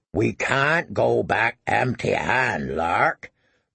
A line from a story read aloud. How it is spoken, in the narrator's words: rumbled Smallpaw through the brown whiskers that covered most of his face